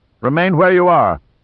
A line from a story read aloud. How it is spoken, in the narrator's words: shouted in Mandarin